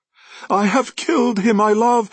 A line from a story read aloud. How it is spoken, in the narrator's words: she cried